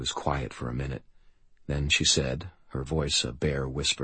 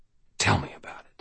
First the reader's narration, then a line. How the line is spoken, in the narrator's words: I urged quietly